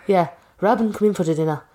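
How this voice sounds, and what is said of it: Put-on Irish accent. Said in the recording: “It's always going to come down to the accent”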